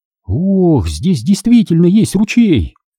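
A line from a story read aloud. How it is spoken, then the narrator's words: Exclaiming. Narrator (Russian): воскликнула Санни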